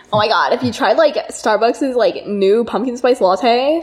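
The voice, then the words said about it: Exaggerated vocal fry, valley girl style. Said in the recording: “I'm going to vocal fry. ... Oh, so much fry.”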